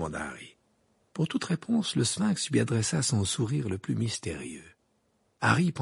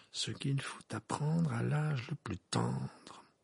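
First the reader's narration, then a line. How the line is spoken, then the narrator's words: Murmuring. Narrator (French): murmura Harry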